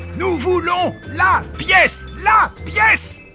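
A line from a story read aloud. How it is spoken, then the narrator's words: Yelling amid uproar. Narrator (French): hurlait-il dans un vacarme épouvantable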